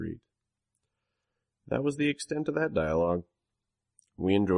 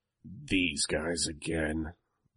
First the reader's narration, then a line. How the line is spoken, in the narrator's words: Bitch snarled